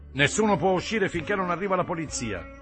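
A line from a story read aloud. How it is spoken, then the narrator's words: Shout from the door. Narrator (Italian): gridò qualcuno dalla porta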